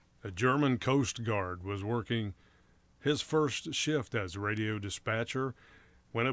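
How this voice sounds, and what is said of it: Usual voice. Nothing is said of it.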